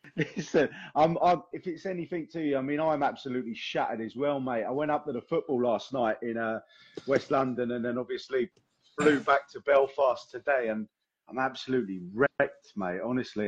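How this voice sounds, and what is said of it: Rough, strained, worn-out voice. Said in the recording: “Sound a bit like Frank Butcher as well with this voice ... My voice is killing me.”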